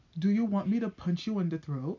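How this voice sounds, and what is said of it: Calm, even-toned delivery. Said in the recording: “in a calm voice”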